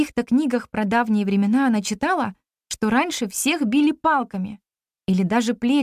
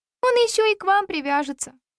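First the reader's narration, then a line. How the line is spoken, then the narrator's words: Sighed. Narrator (Russian): вздохнула Лушка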